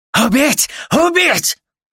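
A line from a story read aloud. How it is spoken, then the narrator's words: Yelling. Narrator (Russian): Орал он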